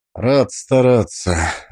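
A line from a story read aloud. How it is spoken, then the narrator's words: Exhaled. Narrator (Russian): выдохнул я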